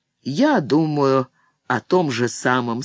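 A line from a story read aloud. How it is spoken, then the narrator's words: Calm. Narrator (Russian): спокойно сказал сами Йори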